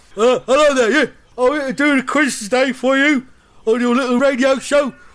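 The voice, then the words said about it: Impression of Roy Hodgson. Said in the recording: “I've arranged for Roy Hodgson to be the quiz master.”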